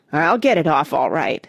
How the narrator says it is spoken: said Cuffy grimly

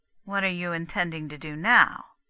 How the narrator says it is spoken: Daisy asked flatly

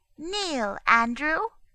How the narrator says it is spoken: said in a fine, distinct voice

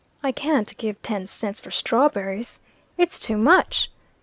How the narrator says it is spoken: shaking her head and compressing her lips firmly, she added

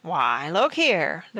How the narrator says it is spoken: the ruffian chuckled

